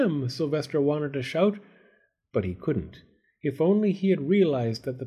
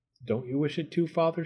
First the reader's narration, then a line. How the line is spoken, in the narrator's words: she said